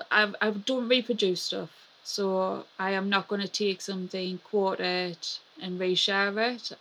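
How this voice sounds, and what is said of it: Regional English accent with twang. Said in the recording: “my Magham accent ... that Magham accent ... you can hear the twang of my accent”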